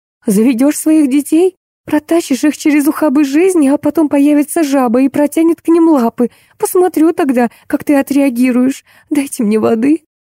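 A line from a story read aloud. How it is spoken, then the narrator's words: Squeal. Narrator (Russian): взвизгнула Алис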